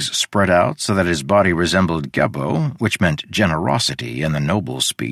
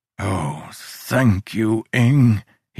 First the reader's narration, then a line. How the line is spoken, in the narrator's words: he sighed